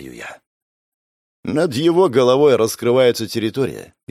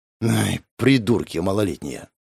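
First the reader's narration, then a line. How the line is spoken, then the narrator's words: Sighing. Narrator (Russian): вздохнул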